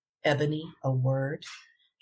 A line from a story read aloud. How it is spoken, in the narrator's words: said with a low growl